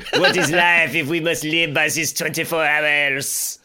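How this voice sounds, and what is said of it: Exaggerated comic French accent. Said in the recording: “ridiculous accents ... that French accent you just did, that was that the Little Mermaid? The guy? ... The Le Poisson guy?”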